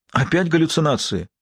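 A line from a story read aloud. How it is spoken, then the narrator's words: Exclamation. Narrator (Russian): воскликнул Лэнгдон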